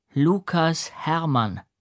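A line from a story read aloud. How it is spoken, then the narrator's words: Said slowly. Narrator (German): sagte er langsam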